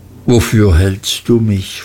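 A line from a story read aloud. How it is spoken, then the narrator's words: Plain question. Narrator (German): fragte Mr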